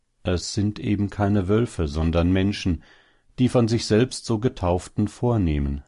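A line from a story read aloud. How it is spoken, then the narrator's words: Plain. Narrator (German): sagte der Hase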